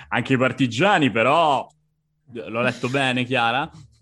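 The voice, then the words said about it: Put-on Roman accent. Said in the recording (Italian): “questo accento romanesco”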